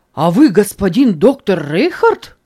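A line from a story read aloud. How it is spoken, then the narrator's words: Priest's surprised exclamation. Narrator (Russian): воскликнул священник с удивлением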